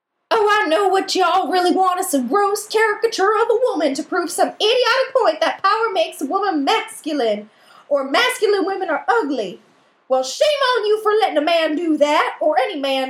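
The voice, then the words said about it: Performs the Dorothy character voice. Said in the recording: “Come back with the voice? ... Can you do the voice? Let's have a Tootsie off.”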